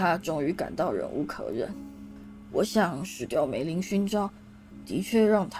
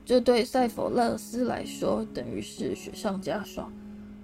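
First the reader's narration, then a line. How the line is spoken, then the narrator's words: Sighing. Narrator (Chinese): 他叹了口气说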